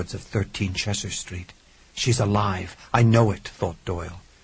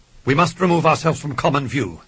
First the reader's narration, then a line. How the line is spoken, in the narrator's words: Sparks' voice intruded sharply